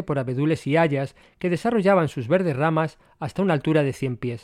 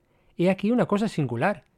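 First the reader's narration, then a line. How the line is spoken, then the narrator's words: Plain. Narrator (Spanish): dijo Don Ifán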